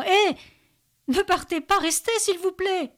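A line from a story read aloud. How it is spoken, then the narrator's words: Frantic panicked scream. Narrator (French): Benjamin hurle de panique, quasi dément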